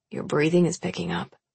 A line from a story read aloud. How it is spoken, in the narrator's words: he murmurs, his voice thick with lust